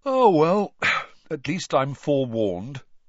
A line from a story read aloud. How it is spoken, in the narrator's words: Ron yawned